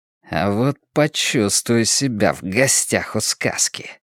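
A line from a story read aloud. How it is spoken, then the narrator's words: Purring. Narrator (Russian): мурлыкнул я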